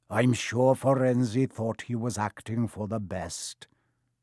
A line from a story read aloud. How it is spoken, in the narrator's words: said in his gloomy voice